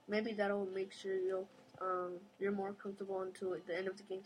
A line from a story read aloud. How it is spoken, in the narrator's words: he said